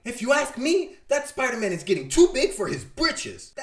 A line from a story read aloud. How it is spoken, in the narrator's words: angrily, she is shouting